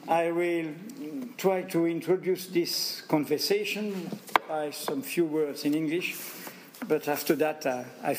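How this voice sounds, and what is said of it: Strong French accent in English. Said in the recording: “my bad English and my awful accent”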